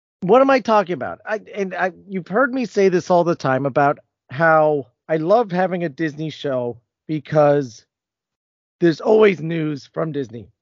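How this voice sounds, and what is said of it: Voice still slightly strained, not fully recovered. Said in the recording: “my voice is doing better, but it's still not 100%”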